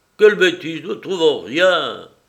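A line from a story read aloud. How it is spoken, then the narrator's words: Exclaimed. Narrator (French): Prasville s'exclama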